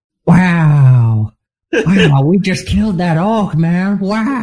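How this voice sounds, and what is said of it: Imitates another person's voice. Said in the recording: “my impression of Owen Wilson ... he'll stand there and he'll just go, "Wow!" ... it's not good”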